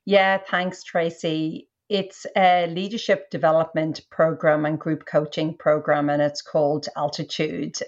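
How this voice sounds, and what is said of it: Irish accent. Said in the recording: “She is in Australia, but Irish ... because of the great accent”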